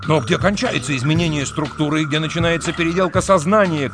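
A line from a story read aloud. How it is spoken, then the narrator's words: Shout. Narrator (Russian): крикнул Трурль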